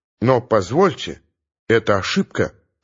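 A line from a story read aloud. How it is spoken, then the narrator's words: Quiet, confiding. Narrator (Russian): негромко, как-то даже доверительно сообщает Мигунов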